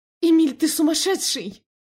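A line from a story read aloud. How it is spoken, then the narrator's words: Yelled. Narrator (Russian): заорала я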